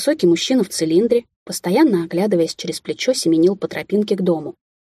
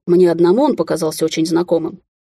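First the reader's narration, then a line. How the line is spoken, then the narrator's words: Irritated young man. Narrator (Russian): раздраженно бросил молодой человек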